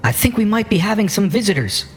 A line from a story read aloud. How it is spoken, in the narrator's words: she braces herself against one side and she shouts out